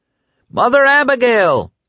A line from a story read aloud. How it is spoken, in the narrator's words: Dick roared over the motors